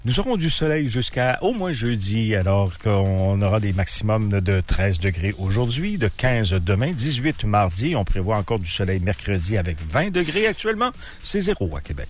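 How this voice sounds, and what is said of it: Put-on French accent. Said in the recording (French): “un accent français! ... c'est une imitation, c'est pas mon vrai moi.”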